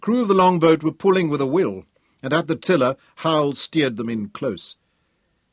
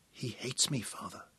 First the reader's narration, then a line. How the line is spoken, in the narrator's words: he whispered